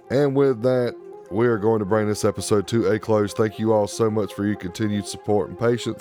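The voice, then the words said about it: Rough, unwell-sounding voice. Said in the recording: “my nasty voice today”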